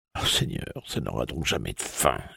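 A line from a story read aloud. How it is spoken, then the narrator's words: Silent inner groan. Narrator (French): gémit en pensée Gradouble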